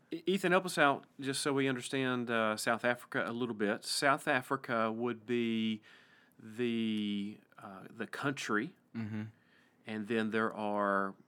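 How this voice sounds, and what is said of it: East Tennessee American accent. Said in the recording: “This is the East Tennessee accent.”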